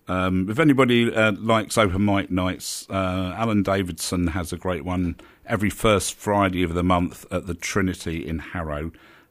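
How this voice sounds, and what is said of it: Rough, hoarse voice. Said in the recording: “That's why I sound a bit rough today”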